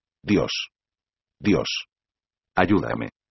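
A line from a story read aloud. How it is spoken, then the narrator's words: Terrified murmur. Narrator (Spanish): Parecía aterrado, murmuró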